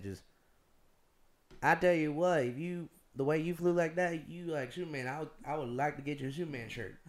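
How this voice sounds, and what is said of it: Put-on strong Southern accent. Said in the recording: “very southern accent”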